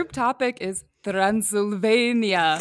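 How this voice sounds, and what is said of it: Mock Dracula accent. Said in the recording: “I tried to make a good, like, Dracula accent.”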